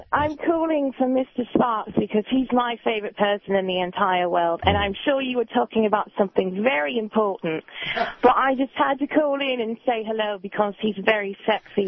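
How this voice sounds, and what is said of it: Speaks with a noticeable accent. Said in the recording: “Is that a legit accent, or are you putting it on because I was?”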